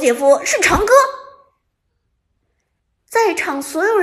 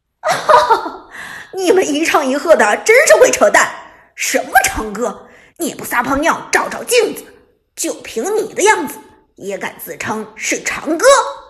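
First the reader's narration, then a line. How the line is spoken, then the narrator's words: Mocking laughter. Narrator (Chinese): 铁血立即嘲笑出声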